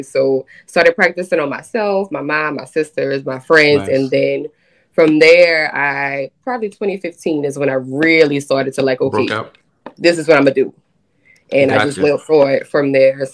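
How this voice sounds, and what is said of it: New Orleans Louisiana accent. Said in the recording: “they hear the accent... I can't cover it up... born and raised in New Orleans, Louisiana”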